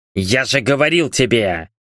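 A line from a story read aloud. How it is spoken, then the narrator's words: Irritated tsk. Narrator (Russian): раздраженно цыкнул Альфар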